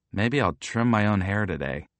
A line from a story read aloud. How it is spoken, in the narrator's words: I mumble to myself, careful not to wake Mom